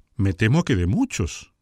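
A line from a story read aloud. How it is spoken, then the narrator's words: Exclaiming duchess. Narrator (Spanish): exclamó la duquesa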